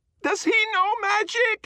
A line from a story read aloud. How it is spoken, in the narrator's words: she screams